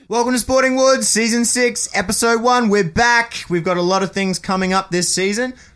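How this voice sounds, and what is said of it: Excited shouting. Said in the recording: “I don't know why I'm shouting. I think I'm just excited.”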